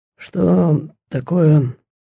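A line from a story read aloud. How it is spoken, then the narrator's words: Hoarse sleepy voice. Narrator (Russian): Генерал спросил хриплым ото сна голосом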